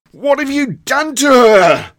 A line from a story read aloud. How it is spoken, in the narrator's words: roared Oscar